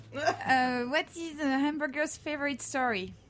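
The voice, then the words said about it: French accent. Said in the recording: “French accent, please.”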